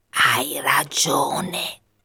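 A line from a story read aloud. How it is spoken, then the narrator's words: Shadow whispering. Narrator (Italian): sussurrò l'ombra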